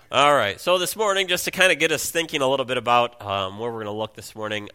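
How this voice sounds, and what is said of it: Congested, strained voice. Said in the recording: “I apologize for my voice. I apologize if I have to blow my nose”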